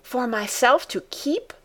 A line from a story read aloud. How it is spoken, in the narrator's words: said Heidi excitedly